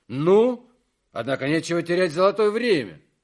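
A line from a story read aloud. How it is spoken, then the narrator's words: Loud speech. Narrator (Russian): громко говорит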